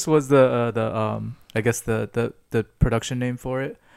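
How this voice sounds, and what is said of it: Usual voice. Nothing is said of it.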